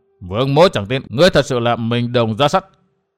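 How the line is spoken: Angry. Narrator (Vietnamese): Vương Vinh tức giận gần giọng

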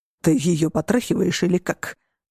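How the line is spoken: Growled. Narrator (Russian): прорычал Марат

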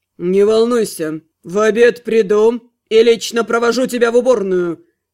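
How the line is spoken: Growled. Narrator (Russian): Рыкнул магистр

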